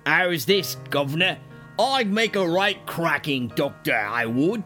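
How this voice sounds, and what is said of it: Bad put-on Cockney accent. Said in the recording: “That's the worst Cockney accent I've ever heard. And I watched Mary Poppins.”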